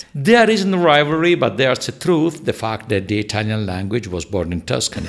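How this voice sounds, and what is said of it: Italian Tuscan accent. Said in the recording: “I've got a very Italian way to say that ... I have an accent from centrally, from Florence and from Tuscany”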